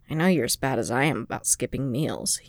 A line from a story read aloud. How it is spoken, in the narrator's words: he muttered, voice pitched to carry no further than the three of them